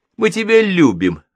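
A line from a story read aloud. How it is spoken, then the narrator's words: Joyful shout into phone. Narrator (Russian): радостно заорал в трубку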